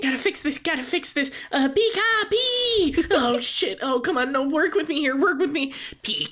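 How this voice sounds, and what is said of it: Mimikyu doing a Pikachu impression. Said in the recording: “Mimikyu keeps up its impersonation of Pikachu.”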